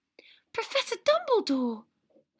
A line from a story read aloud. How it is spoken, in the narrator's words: Hermione exclaimed, looking mortified